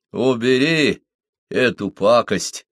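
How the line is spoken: Slow, distinct speech. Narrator (Russian): Хан проговорил медленно и вполне разборчиво

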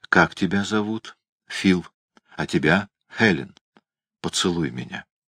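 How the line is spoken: Gentle question. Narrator (Russian): Она нежно спросила

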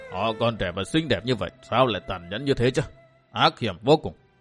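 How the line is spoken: Muttering. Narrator (Vietnamese): Chủ quán lẩm bẩm

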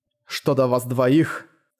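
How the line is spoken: Cold, through gritted teeth. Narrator (Russian): холодно процедил он

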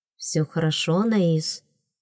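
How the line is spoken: Whisper. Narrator (Russian): шепнул

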